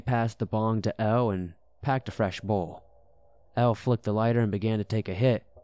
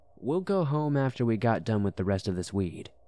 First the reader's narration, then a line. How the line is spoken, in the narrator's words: L said